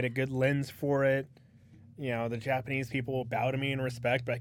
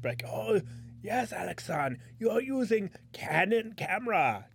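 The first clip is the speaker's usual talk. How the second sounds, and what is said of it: Put-on Japanese accent. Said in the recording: “doing a fucking racist voice”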